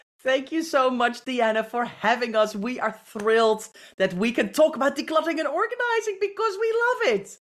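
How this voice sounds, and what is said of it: British accent. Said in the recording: “I am a sucker for that British accent”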